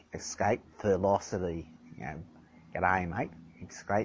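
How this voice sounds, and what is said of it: Put-on Australian accent. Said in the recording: “you've got to have an Australian accent for it”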